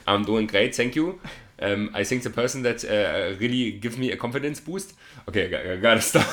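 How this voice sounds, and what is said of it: Put-on German accent. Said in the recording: “Do your German accent.”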